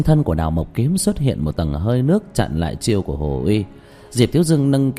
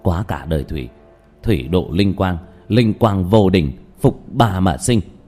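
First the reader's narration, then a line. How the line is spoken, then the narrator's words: Whispered incantation. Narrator (Vietnamese): giọng thì thầm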